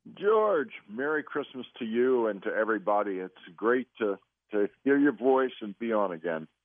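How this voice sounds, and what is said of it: Hoarse voice. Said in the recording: “I'm hoarse now for some reason. ... Probably allergies.”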